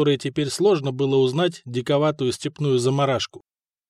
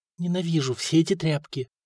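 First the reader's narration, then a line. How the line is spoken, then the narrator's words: Barely audible whisper. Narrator (Russian): шепнула едва слышно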